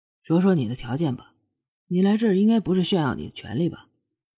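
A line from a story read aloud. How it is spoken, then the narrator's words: Calm, indifferent. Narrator (Chinese): 凌风淡淡的道，似乎一切都在自己预料之中啊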